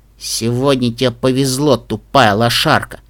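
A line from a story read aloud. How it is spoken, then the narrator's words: Muttered. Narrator (Russian): пробормотал он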